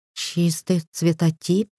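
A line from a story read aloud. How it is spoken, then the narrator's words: Elder lady's whispered question. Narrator (Russian): шепотом уточнила старшая леди Дарлю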